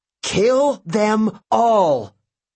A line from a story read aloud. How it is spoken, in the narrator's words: she roared